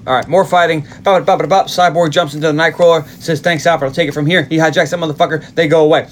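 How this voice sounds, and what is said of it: Very fast talking. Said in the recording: “I know I'm talking really fast”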